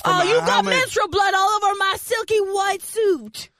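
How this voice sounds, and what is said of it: Put-on pimp character voice. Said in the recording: “I don't know what accent what that was ... That was pimp accent.”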